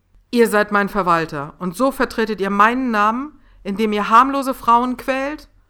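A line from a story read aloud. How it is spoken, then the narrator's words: Thundering voice in hall. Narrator (German): donnerte auf einmal die Stimme von Lord Caligo durch die Halle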